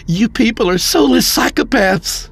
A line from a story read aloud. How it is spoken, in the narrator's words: Mark shouted